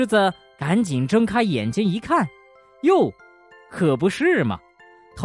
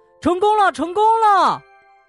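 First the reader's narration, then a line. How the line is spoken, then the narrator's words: Loud shout. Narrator (Chinese): 狐狸大叫道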